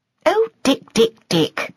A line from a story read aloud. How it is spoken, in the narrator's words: said Stella crossly